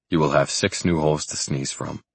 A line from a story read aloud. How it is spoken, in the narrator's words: I said dryly